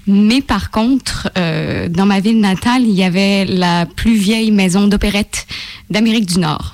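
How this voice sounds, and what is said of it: Slight Québécois French accent. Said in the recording (French): “un bel accent. Oui, c'est un bel accent. ... C'est accent québécois. ... À peine.”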